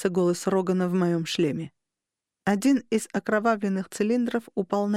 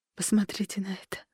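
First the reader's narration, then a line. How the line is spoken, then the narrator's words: Whisper. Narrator (Russian): прошептала я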